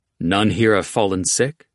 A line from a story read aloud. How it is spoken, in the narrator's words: Jackal said